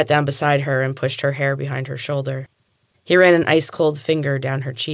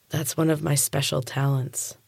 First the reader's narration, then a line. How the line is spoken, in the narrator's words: whispered